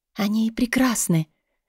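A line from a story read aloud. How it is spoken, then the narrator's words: Barely audible whisper. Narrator (Russian): едва слышимым шепотом произнесла я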